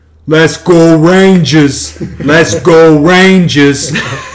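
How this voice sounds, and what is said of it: Exaggerated New York accent, shouting. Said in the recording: “in the most New York accent he could say”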